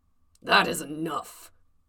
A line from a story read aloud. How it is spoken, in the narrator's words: Cody growled